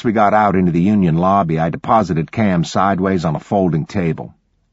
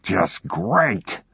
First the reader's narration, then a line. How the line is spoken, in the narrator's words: Garrett growled